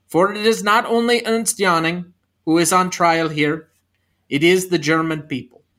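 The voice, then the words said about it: Poorly done put-on accent. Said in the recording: “That was a terrible accent.”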